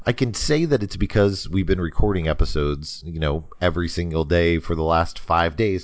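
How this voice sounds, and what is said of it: Slightly scratchy voice. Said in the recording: “my voice sounds a little scratchy ... I'm a little scratchier than most”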